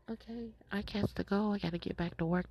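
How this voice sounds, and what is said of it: Whispering. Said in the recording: “That's why I'm whispering.”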